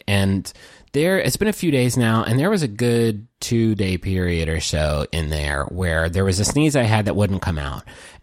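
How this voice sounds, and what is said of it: Sick, congested voice. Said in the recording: “I don't know if you can tell from my voice, but I has a sick.”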